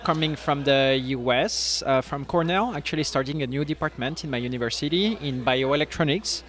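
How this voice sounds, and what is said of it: French accent. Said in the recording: “by your accent, we can tell you're not from around these parts ... I'm trying to soften it ... I'm from the southern France, from Nice”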